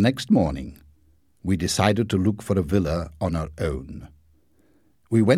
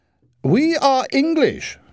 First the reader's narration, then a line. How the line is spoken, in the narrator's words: shouted Mother over the noise